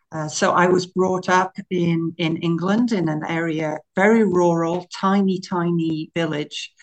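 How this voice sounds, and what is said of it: British English accent. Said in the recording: “why you have an accent ... the way that I speak says that I came from the UK originally”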